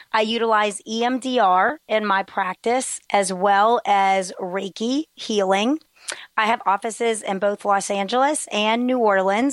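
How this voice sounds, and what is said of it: Strained, unclear voice from illness. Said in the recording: “Pardon my voice today. I am recovering from a cold ... It's a bit of a struggle to talk ... pardon any difficulties in understanding me”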